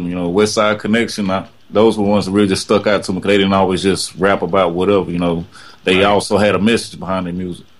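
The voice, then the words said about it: Texas accent. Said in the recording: “That's where that accent is from, Texas.”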